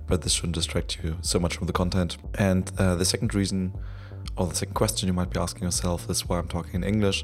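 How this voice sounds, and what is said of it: Sick, cold-affected voice. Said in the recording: “my voice is so different, it's uh, not the result of irresponsible drinking, but a natural cold I'm battling”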